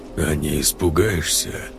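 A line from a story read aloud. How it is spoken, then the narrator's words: Hoarse rasping voice. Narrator (Russian): прохрипел голос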